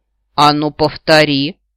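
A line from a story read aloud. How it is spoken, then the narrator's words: Growled. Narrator (Russian): прорычал аметистовый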